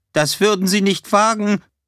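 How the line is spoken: Called out. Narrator (German): Greenman rief

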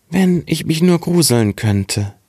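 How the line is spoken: Very sad. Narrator (German): sprach ganz traurig

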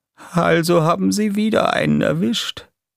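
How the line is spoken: Sad sigh. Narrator (German): sagte er mit einem traurigen Seufzer

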